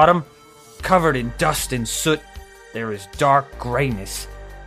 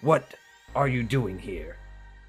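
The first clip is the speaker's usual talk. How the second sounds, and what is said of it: Very deep character voice. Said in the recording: “in a deep, deep voice”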